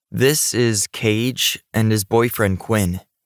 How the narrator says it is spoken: said, speaking slowly

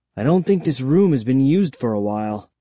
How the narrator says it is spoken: said

